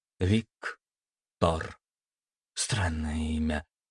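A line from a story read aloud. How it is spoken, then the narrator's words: Muttering young man. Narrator (Russian): пробормотал парень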